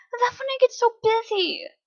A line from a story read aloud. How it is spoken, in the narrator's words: I whined